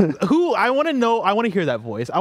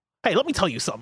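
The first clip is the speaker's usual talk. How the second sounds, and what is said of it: Imitates a character's voice. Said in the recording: “I want to hear somebody doing their best Shane impression.”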